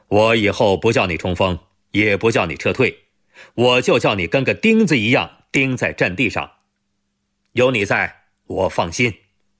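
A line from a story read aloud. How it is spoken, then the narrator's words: Smiling. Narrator (Chinese): 吴铁锤笑着说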